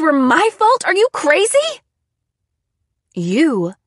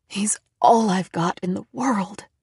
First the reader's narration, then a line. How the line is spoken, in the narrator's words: she whispered